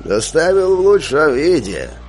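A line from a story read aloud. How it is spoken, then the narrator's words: Creaky voice, snort. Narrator (Russian): скрипучим голосом произнес извозчик и хмыкнул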